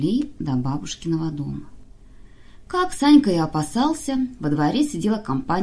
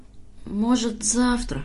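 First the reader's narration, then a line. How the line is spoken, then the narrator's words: Dreary drawl. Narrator (Russian): уныло тянет Санька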